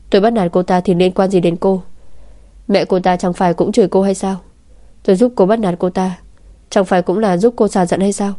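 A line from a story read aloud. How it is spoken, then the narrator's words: Exasperated, almost laughing. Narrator (Vietnamese): Ôn Nam suýt bật cười vì tức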